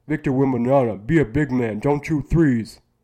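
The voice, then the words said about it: Imitates another person's voice. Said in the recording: “my Shaq impression. It's terrible.”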